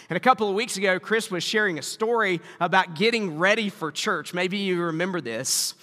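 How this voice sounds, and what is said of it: Southern US accent. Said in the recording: “I know you were wondering if the accent was Canadian, but no, it's I grew up in the South”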